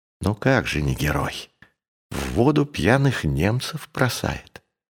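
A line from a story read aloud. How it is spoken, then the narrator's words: Whisper. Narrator (Russian): Шубин шепнуть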